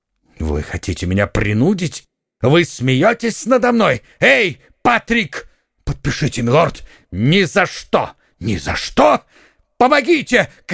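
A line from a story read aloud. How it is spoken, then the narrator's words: Shouting. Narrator (Russian): крикнул герцог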